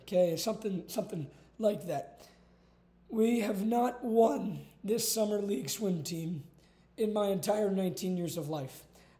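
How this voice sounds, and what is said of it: Hoarse, nearly lost voice. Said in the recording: “why my voice is gone ... good Lord, I can barely talk.”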